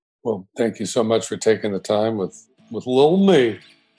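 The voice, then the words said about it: Put-on Southern accent. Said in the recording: “Stop doing the southern accent.”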